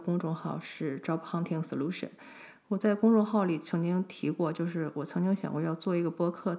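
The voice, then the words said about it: Slight accent, very fast speech. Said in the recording (Chinese): “讲话又非常快……我讲话的速度其实超级快，如果一个不小心，很容易跟不上我的节奏……不管说中文还是说英文，我其实都是有一点口音在”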